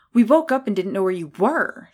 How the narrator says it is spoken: she said breathlessly

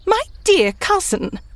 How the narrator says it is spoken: said Lady Anne, laughing,

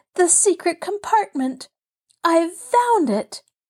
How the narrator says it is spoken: she cried

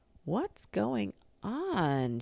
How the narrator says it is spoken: she called downstairs in a sleepy voice

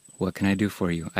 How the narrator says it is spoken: I ask quietly

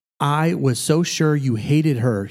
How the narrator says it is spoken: he said

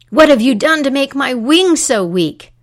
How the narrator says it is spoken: he roared

